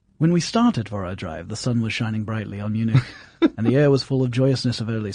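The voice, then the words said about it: Put-on English accent reading aloud. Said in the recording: “I expect you to do this in an English accent ... I'll do this in English because most of the characters in Dracula were actually English.”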